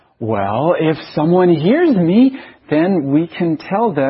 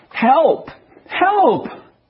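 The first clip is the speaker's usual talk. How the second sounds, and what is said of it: Shouting for help. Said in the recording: “why are you shouting for help?”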